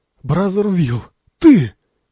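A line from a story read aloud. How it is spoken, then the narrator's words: Breathless exhale. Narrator (Russian): выдохнул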